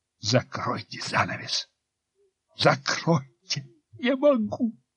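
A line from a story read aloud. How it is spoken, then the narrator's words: Through gritted teeth. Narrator (Russian): Ларионов сквозь зубы цедит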